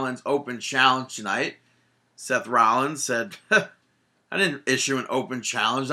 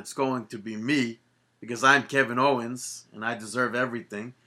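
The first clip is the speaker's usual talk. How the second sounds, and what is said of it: Imitates another person's voice and accent. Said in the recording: “You sound just like him... you got the accent somewhat down.”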